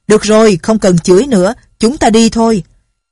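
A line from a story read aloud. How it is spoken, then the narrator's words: Loud. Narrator (Vietnamese): lớn tiếng nói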